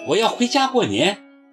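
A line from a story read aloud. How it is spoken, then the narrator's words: Crying out. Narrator (Chinese): 我叫了起来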